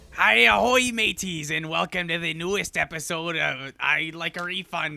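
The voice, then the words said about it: Scottish pirate voice. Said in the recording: “I sound like a Scottish pirate ... Was that a Barbossa impersonation”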